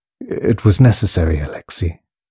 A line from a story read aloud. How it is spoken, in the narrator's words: sighed Peter